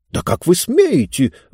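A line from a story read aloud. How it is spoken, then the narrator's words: Indignant exclamation. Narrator (Russian): возмущенно воскликнула книга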